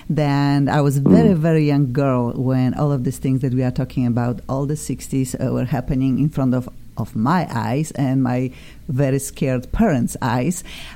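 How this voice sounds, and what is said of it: Polish Eastern European accent. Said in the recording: “I know you hear my accent. I'm originally from Eastern Europe. I'm from Poland.”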